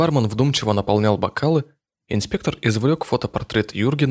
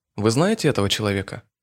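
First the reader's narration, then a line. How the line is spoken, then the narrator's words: Polite, bored question. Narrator (Russian): Вежливо, немного скучающим тоном поинтересовался Иванов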